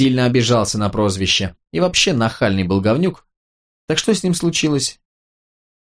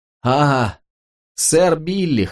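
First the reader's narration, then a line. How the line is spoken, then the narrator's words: Short laugh. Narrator (Russian): хохотнул Матрик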